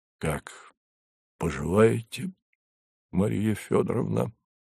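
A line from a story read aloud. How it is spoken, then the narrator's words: Husky question. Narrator (Russian): хрипловатым голосом спросил Савва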